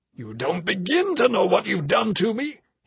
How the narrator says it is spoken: he roared

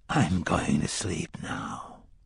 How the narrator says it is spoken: Court whispered calmly

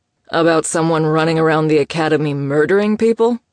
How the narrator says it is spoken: Kian asked dryly

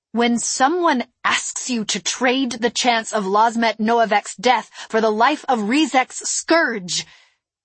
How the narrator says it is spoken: shouted

